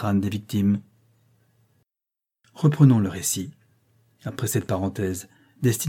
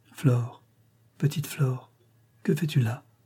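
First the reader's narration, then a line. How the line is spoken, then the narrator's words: Sighing. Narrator (French): dit-elle avec un soupir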